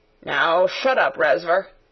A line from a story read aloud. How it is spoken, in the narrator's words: said Sarah roughly